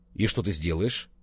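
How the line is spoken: Plain. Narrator (Russian): спросил Колобов

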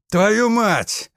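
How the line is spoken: Yelled in pain. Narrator (Russian): заорал, зажмурившись от боли

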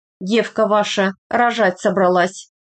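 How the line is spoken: Flat wooden voice. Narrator (Russian): ровным деревянным голосом сообщила

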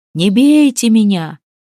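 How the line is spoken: Terrified wail. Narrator (Russian): завопило из-под лавки на славянском языке

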